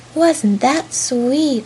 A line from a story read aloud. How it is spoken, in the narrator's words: cried all the dolls